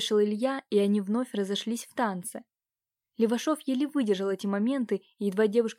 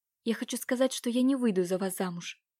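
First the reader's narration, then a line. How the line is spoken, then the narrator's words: Quickly blurted out. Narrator (Russian): Катюша быстро выпалила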